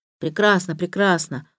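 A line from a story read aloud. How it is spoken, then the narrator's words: Muttered. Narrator (Russian): пробормотал Самиет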